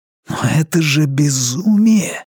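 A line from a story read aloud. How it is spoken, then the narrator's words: Breathed out. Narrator (Russian): выдохнул Вивьен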